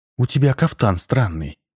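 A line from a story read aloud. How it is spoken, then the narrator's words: Timid. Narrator (Russian): произнесла царевна робко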